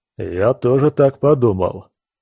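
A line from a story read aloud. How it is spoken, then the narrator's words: Deep bass voice. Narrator (Russian): пробасил громила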